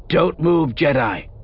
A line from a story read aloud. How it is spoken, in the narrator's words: Rug yelled, and though her volume increased, her voice carried a level tone